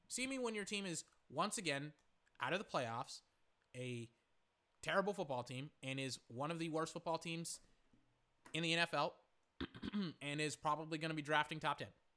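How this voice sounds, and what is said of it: Strained, worn-out voice. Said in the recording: “My voice is starting to absolutely get destroyed here.”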